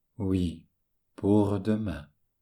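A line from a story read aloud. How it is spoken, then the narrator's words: Sad. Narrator (French): Elle répondait tristement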